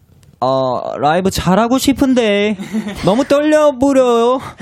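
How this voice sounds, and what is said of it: Put-on Korean regional dialect. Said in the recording (Korean): “사투리로 한마디 해줄 수 있나요? ... 어디, 어디 지방 사투리냐?”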